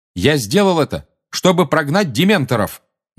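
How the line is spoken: Loud speech. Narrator (Russian): громко сказал Гарри

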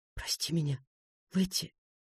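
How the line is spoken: Whispering. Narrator (Russian): Я прошептал

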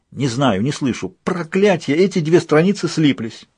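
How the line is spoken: Exclaiming. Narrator (Russian): воскликнул ангел

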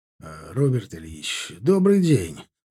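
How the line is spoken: Fawning voice. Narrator (Russian): заискивающим голосом проговорил он

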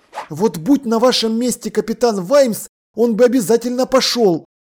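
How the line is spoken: Exclamation. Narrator (Russian): воскликнул он

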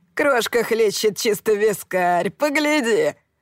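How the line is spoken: Laughing young man. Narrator (Russian): Захохотал один из той четверки парней

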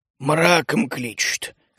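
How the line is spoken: Hoarse reply. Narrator (Russian): хрипло ответил лесолюд

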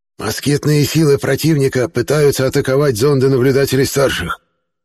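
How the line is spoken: Contemptuous hiss. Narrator (Russian): презрительно прошипел представитель Варванов

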